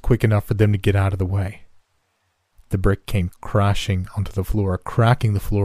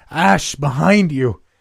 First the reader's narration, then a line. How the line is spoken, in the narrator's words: Mustering the last of my strength, I screamed out